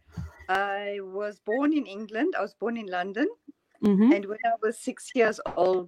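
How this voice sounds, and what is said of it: Non-Norwegian accent. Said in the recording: “that's not a Norwegian accent I'm hearing.”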